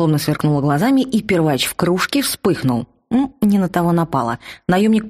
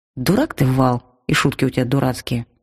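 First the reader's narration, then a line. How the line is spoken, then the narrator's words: Calm. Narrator (Russian): спокойно сказал я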